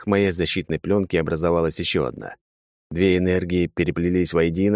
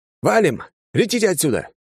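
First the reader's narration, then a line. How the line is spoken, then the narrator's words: Shout. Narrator (Russian): крикнул пилотом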